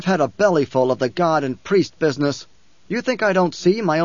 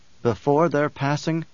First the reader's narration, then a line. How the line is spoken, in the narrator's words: Paul whispered